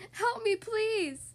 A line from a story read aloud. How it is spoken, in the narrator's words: she cried out